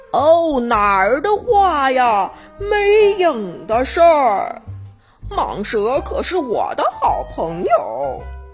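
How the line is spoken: Loud shout. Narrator (Chinese): 列西大声喊

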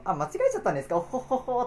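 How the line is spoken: Plain. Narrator (Japanese): とか言っちゃって

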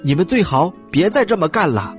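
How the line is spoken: Shout. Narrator (Chinese): 这一声喊

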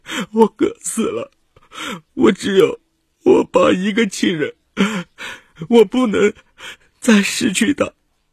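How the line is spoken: Sobbing breathlessly. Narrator (Chinese): 张威哭得上气不接下气

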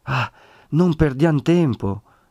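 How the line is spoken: Breathless, anxious exclamation. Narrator (Italian): esclamò Federigo, ansante di pietà e di sollecitudine

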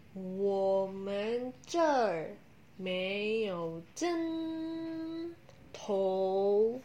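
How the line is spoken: Slow answer. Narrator (Chinese): 售货员慢慢的回答

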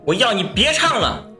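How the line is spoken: Exasperated shout. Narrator (Chinese): 我一个低楼层住户终于忍不住大喊一句

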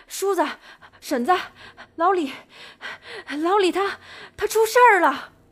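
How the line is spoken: Breathless, panting. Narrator (Chinese): 一个中年男人满头大汗的……气喘吁吁的说

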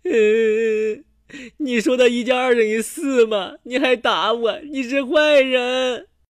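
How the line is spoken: Crying. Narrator (Chinese): 他一边哭一边说

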